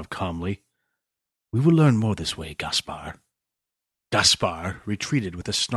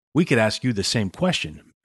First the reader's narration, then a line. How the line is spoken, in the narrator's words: Max said evenly